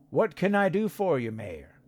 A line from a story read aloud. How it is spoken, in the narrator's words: Bud said again